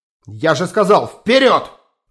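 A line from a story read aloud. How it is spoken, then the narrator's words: Barked command. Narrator (Russian): гаркнул Гиллибранд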